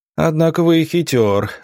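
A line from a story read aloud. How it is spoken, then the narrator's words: Wounded man laughing. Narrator (Russian): рассмеялся раненый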